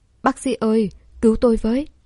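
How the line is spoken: Patient shouting loudly. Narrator (Vietnamese): Bệnh nhân vừa gây mê ... hét lớn

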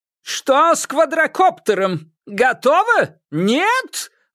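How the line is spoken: Yelling. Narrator (Russian): вопил режиссер

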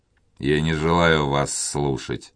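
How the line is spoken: Gloomy objection. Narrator (Russian): мрачно возразил Монбар

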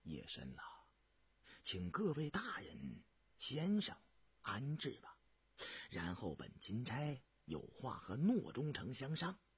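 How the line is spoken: Soft-spoken. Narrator (Chinese): 涂礼琛轻声道

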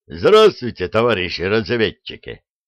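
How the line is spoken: Cheerful bark. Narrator (Russian): бодро гаркнул самый высокий из гостей

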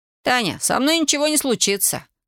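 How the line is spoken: Boy shouting. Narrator (Russian): крикнул мальчик

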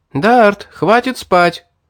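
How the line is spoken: Puzzled shout, young woman. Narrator (Russian): С недоумением девушка крикнула еще

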